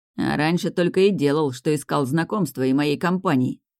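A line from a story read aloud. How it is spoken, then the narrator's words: Angry, spitting. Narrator (Russian): зло сплюнул Адлар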